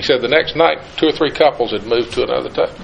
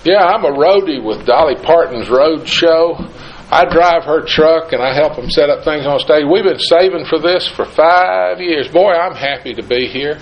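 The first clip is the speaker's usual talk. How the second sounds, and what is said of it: Put-on East Tennessee accent. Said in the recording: “in his best East Tennessee accent”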